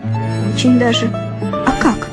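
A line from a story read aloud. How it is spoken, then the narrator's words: Laughing. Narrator (Russian): Я засмеялась и говорю ему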